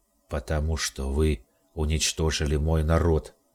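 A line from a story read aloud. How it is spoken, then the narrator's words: Hollow, muffled voice. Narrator (Russian): ответил Ариман глухим голосом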